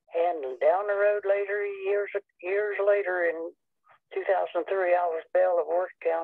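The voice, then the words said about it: Noticeable regional accent. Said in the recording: “I love your accent.”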